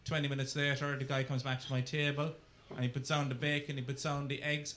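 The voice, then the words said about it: Irish accent. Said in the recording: “you heard my accent... being an Irishman”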